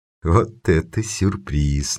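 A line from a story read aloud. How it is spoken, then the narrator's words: Uncertain, smiling. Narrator (Russian): неуверенно улыбнулся Карл Хейниц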